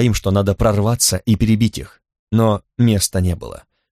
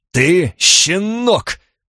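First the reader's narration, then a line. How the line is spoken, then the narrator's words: Growl. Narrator (Russian): прорычал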